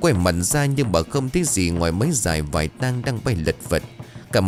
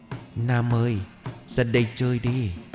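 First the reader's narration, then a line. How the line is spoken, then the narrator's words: Soft distant call. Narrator (Vietnamese): ai đó đang khẽ gọi tên của mình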